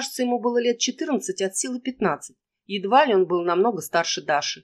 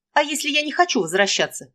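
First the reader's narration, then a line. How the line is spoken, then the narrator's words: Angry. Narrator (Russian): сердито произнесла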